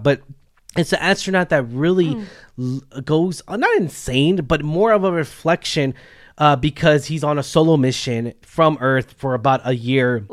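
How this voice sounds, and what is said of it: Hoarse, failing voice. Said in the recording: “my voice is going out”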